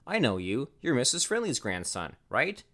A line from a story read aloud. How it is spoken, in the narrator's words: she asked